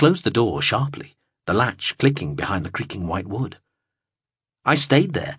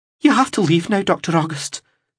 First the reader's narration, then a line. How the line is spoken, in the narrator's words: she exclaimed